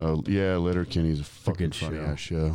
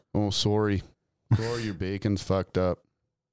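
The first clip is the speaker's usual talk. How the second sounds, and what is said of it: Attempted Canadian accent. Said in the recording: “I don't even know if that's a Canadian accent.”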